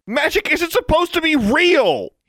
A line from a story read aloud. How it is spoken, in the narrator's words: he shouted